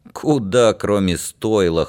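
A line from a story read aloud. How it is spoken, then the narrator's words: Snorting. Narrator (Russian): хмыкнул Димка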